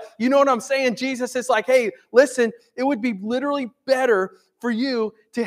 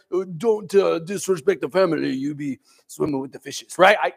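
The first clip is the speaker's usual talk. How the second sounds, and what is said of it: Mafia-style put-on accent. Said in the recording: “it's almost like a little bit like mafia ... I can't do that accent.”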